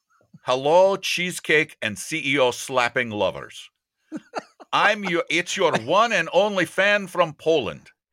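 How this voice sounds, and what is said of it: Bad put-on Eastern European accent. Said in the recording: “a bad Eastern European accent ... I'll do a little bit of Eastern Europe. Bad.”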